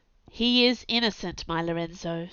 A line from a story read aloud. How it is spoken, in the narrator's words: said